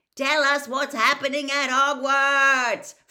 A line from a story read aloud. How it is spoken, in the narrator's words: Fred bellowed out of the window